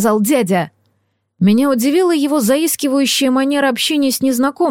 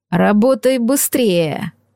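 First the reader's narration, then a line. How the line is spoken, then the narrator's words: Hiss. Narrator (Russian): прошипел незнакомец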